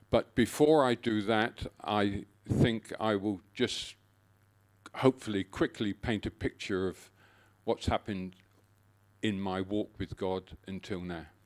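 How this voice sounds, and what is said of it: English accent. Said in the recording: “As you can guess from my accent, I didn't originate from here... I still get called a pommy”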